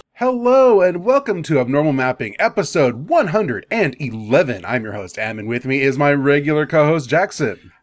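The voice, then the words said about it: Game show host voice. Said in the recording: “I don't know why I'm doing game show voice here.”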